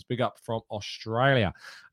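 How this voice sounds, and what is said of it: Poor put-on Australian accent. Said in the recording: “That was a terrible attempt at an Australian accent.”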